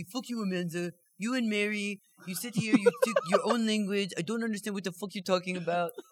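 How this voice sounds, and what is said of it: Imitates another person's voice, French accent. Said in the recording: “That's a great impression. ... French. He's French. He's got the accent.”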